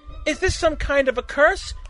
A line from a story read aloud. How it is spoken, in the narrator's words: Eunice exclaimed